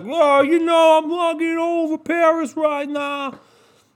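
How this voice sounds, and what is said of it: Bad put-on New York accent. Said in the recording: “did he live in Brooklyn? ... That's a bad New York accent.”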